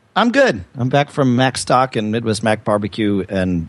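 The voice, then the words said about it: Worn-out, strained voice. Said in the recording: “my voice hasn't made it back yet ... Your voice sounds better than it probably feels”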